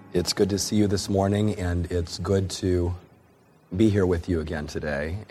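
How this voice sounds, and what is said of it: Voice much lower than usual. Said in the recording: “my voice is still here. It's much lower than it normally is”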